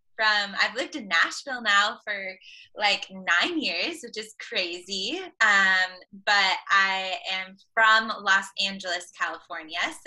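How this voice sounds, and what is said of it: Californian Valley girl accent. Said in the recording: “I have a good old like Valley girl accent”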